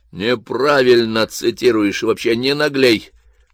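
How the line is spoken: Grumbled. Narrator (Russian): пробурчал я

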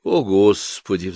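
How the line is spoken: Mother's sigh. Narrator (Russian): вздохнула мама

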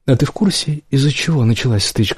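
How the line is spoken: Plain. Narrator (Russian): спросила Морган

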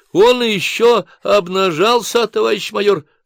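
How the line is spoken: Joyful encouraged squeal. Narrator (Russian): радостно взвизгнул ободренный Рюмин

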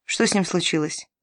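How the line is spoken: Plain. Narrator (Russian): спросил он

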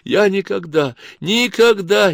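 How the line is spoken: Hysterical sobbing. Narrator (Russian): истерически всхлипывала Кларка

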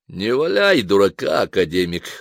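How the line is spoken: Even, creaky voice. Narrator (Russian): ровным скрипучим голосом проговорил Марчелло

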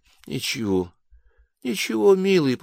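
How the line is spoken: Whispered. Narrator (Russian): прошептала

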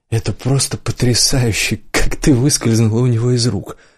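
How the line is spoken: Breathless. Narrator (Russian): выдохнул он

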